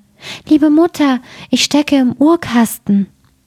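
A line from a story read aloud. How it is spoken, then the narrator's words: Small thin voice calling. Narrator (German): rief eine feine Stimme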